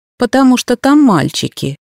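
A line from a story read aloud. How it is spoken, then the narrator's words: Snorted. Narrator (Russian): хмыкнули передо мной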